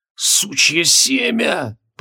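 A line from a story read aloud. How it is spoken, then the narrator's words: Hoarse wheeze, near fainting. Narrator (Russian): прохрипел Джориан, чувствуя, как перед глазами плывут радужные круги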